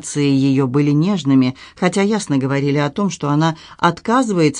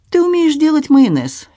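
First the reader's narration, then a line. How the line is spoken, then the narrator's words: Cheerful reply. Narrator (Russian): весело отвечала она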